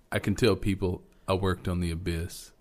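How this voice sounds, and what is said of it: Imitates another person's voice. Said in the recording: “your little impersonation”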